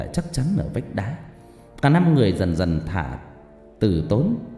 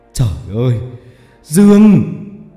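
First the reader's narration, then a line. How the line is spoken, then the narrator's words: Screaming. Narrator (Vietnamese): Ông gào lên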